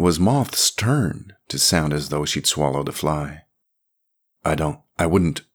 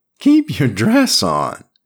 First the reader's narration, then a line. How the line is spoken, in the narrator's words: said with a leer and a giggle